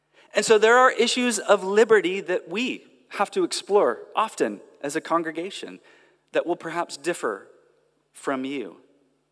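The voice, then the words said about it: American accent. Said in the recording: “as you can tell from the accent, I'm stepping into a different culture. I'm from America, and I'm from California”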